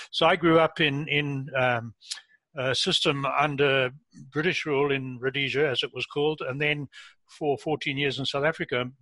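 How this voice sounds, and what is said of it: Foreign-born non-Canadian English accent. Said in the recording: “As you can hear from my accent, I'm a relatively new Canadian. ... at my age, you don't lose your accent.”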